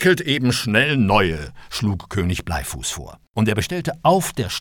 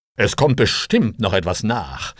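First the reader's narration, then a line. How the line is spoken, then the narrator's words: Plain. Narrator (German): sagte Bleifuß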